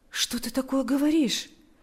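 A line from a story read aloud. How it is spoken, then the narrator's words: Consoling tone. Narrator (Russian): произнес Павел утешающим тоном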